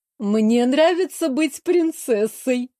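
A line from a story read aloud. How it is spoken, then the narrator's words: Snorting, amused. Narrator (Russian): хмыкнула наша проблема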